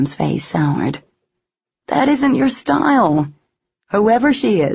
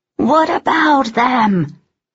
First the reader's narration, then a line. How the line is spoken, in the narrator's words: Cam roared into the waterfall